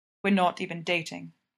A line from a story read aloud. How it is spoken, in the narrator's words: he says